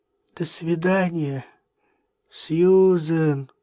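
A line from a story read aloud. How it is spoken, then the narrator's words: Sleepy voice. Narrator (Russian): сонным голосом проговорила Джейн Клаузен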